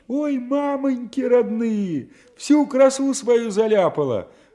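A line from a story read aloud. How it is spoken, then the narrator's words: Shrieking. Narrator (Russian): взвизгивал кто-то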